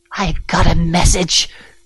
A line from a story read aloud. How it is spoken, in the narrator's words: growled